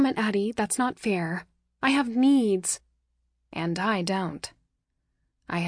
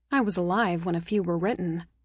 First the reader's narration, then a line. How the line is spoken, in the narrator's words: she said dryly